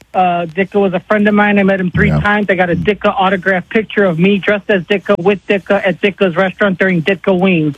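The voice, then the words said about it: Thick regional accent, comedic-sounding. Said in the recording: “You sounded like an SNL skit right there, pal. ... when I get sad and excited, the accent comes out a little more”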